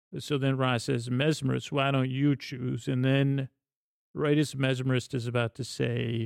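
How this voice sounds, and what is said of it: Usual voice. Nothing is said of it.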